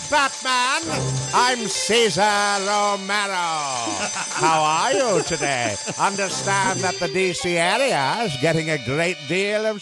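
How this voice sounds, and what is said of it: Impression of Cesar Romero. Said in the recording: “do an impression of Cesar Romero”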